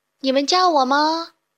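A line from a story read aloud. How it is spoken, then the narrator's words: Calling out across. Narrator (Chinese): 一只灰色的大象，向对岸的大象们喊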